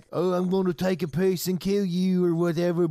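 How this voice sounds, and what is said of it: Australian-accented impression of a film villain. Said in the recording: “That impression was so good. I thought he literally was here. ... I foresee a bunch of Australian accents”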